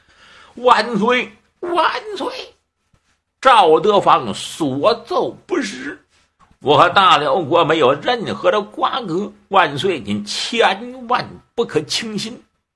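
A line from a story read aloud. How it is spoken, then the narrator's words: Old man weeping. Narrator (Chinese): 这老家伙…哭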